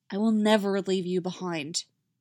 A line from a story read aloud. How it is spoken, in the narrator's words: Finn promises solemnly